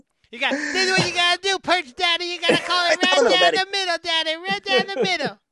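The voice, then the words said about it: Imitates another person's voice. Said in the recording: “do a Bill Alfonso impersonation”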